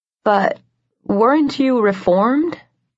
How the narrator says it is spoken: I asked slowly

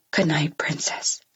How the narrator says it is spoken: my daddy whispers

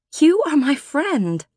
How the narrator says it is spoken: I said, and my voice broke on the word

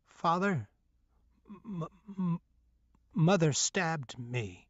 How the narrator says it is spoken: I stuttered

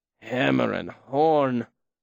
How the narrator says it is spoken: Will said wearily behind me

